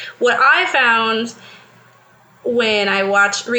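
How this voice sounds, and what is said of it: Usual voice. Nothing is said of it.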